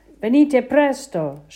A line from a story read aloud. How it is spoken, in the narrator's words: shouted Papa